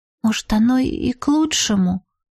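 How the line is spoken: Timid question. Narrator (Russian): робко спросила подруга

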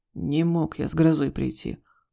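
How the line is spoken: Grumbled mutter. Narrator (Russian): буркнул Игорь

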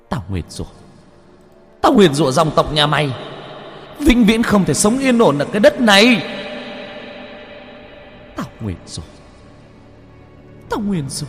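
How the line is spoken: Screaming curse. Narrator (Vietnamese): Cô vẫn thét ra

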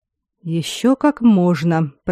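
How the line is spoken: Through gritted teeth. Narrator (Russian): процедил Аластор

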